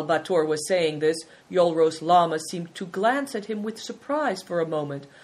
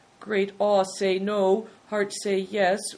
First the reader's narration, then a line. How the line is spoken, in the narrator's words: replied Bator, raising his eyes timidly